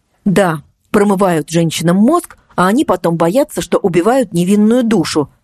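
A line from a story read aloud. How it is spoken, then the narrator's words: Sharp cutting retort. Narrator (Russian): резко припечатала Марго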